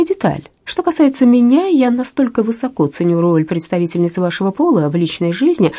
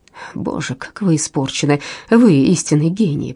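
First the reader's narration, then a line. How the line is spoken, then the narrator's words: Tender mutter. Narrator (Russian): пробормотал Безил Ренсом, с нежностью глядя на нее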